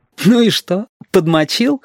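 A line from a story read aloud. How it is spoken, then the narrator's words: Boy giggling. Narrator (Russian): хихикнул мальчик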